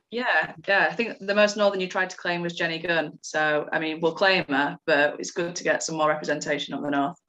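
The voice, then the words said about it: Northern English Yorkshire accent. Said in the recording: “Can you tell she's a Northerner? ... I'll try and do my best Northern accent throughout ... Spent years toning this down”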